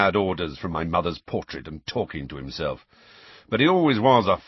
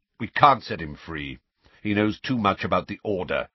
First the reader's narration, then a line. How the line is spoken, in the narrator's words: said Sirius curtly